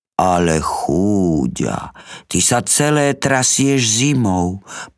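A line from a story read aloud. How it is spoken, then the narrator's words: Tender. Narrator (Slovak): povedal nežne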